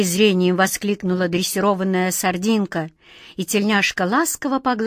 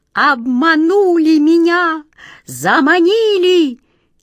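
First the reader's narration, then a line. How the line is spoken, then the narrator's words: Desperate cat screech. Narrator (Russian): Черная кошка с отчаянным визгом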